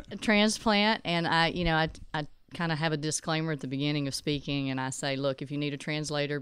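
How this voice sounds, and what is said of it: East Texas accent. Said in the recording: “your accent. So she is a native Texan ... other than the accent, there's statements and phrases that are a little different in East Texas”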